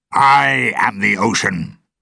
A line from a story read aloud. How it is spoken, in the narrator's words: Jones shouted angrily